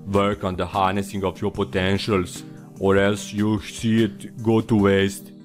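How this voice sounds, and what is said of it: Arnold Schwarzenegger impression. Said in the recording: “my Arnold Schwarzenegger impression ... it's not that bad, at least in my ears”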